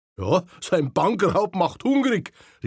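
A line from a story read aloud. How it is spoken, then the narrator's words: Called out. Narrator (German): rief ein anderer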